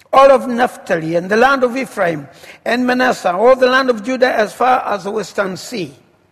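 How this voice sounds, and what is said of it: Speaks with a noticeable accent. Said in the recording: “you've gotten used to my accent”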